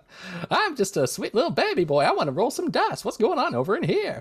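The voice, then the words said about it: Playful put-on character voice. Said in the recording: “character voice I'll be running with ... I haven't nailed down my character voice yet”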